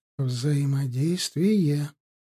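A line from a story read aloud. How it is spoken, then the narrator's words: Whisper. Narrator (Russian): шепнула господа Риитова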